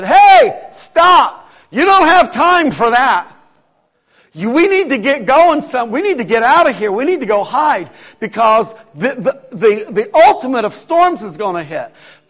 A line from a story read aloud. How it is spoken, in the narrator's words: I was yelling as loud as I could